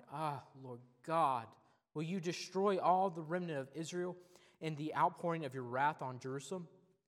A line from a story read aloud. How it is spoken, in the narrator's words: I fell upon my face and cried